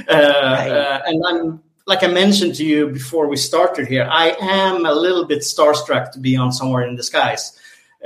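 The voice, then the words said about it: Swedish accent. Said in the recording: “this Swedish accent, Swedish chef”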